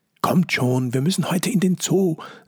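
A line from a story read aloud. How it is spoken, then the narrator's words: Excited speech. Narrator (German): sagt Jojo aufgeregt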